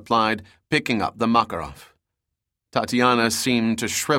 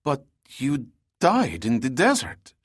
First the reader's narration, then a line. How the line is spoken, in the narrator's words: she stammered